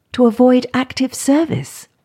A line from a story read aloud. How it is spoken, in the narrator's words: gasped Kathy